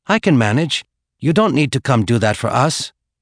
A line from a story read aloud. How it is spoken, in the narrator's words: Chun said nervously